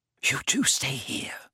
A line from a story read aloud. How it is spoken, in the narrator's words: whispered Hermione